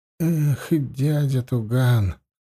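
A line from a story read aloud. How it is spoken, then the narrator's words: Dejected voice. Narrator (Russian): упавшим голосом проговорил Метта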